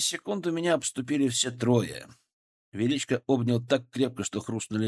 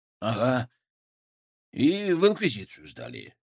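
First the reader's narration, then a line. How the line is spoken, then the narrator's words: Gloomy. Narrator (Russian): добавил Славик мрачно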